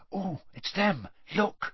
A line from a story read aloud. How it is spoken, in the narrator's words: Hermione whispered